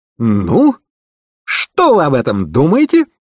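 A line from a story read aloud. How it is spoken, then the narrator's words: Showman-like exclamation. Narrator (Russian): воскликнул детектив с видом балаганного зазывалы, желающего привлечь внимание публики к выступлению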